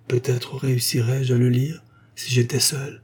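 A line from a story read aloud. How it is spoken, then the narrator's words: Murmured. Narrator (French): murmura-t-elle enfin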